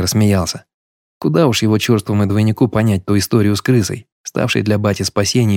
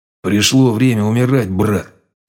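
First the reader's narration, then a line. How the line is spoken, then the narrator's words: Through gritted teeth. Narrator (Russian): Сквозь зубы процедил он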